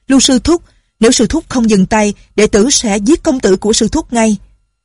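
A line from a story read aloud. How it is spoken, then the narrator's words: Threatening shout. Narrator (Vietnamese): Tên đệ tử phái Tung Sơn la lên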